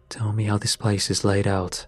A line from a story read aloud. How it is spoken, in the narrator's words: I said